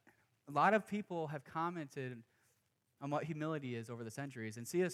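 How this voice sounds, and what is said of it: Usual voice. Nothing is said of it.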